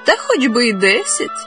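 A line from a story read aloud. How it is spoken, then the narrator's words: Young woman laughing. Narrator (Ukrainian): засміялась молода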